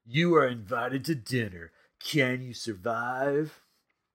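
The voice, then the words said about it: Creepy voice. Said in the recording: “that was supposed to be my creepy voice”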